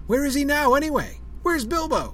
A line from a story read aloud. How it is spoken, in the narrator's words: old Rory Brandybuck, well-filled but still pretty bright, was heard to shout